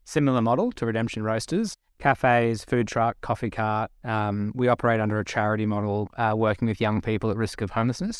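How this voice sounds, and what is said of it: Subtle Australian accent. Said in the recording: “back in Australia, as I'm sure you can tell from my subtle accent”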